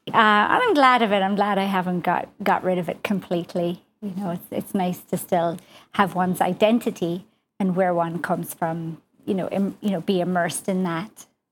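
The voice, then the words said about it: Slight Irish accent. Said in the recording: “I'm Irish ... I still have a slight Irish accent.”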